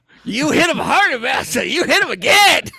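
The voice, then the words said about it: Imitates another person's voice. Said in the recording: “we're doing a Chris Rock impersonation”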